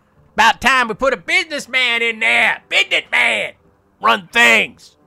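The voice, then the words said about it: Put-on Southern redneck drawl. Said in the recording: “more of a southern drawl or a twang... my impression of a redneck. Sorry if it's not coming off that way.”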